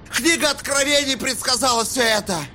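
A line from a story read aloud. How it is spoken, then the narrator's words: Shout. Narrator (Russian): крикнул он наконец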